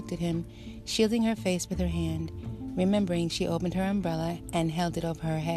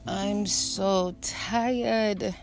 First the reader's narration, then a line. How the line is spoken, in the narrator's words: moaned